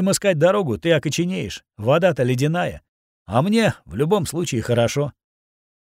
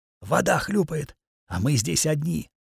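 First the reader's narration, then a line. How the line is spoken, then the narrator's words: Whispered. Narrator (Russian): шепотом закончил я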